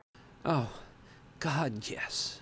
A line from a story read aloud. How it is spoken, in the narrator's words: I moaned